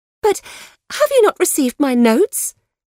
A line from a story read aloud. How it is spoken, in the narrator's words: cried Marianne in the wildest anxiety